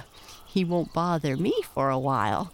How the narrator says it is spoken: laughed the beetle to the tree toad

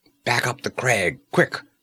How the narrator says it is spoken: snapped Conan

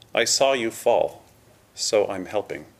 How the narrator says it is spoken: she said

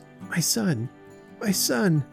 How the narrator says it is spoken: Jarvis could only say in a broken voice

